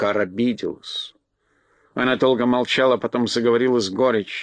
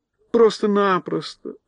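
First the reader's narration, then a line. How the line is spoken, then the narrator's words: Tearful exclamation. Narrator (Russian): со слезами на глазах воскликнула Элли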